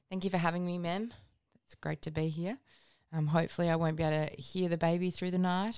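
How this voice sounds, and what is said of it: Deep, rough tired voice. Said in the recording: “I certainly can't sing today. I sound like a man. ... a bit of lack of sleep in this household, a bit of gastro going around with me”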